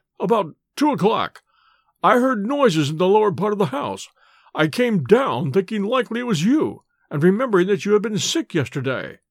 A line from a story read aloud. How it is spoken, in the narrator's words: he faltered